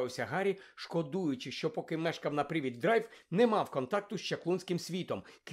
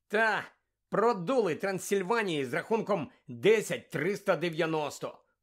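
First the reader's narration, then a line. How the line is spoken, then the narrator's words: Grumbled gloomily. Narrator (Ukrainian): понуро буркнув Чарлі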